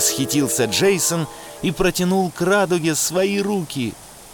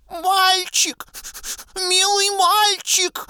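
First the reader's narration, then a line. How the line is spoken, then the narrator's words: Beast pleading. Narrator (Russian): взмолился зверь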